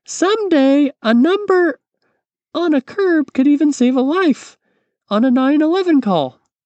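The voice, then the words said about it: Poor impression of a mother's voice. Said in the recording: “it's a terrible impersonation of my mother.”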